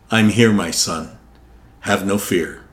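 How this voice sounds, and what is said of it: Deep voice. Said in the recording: “deep voice”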